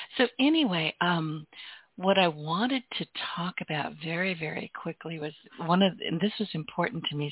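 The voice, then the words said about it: Hoarse, weakening voice. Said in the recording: “I'm losing my voice ... You would think for a girl with a podcast, I would have a strong voice. Not so much.”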